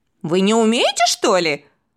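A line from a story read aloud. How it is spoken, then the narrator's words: Boy's scoffing snort. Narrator (Russian): хмыкнул мальчишка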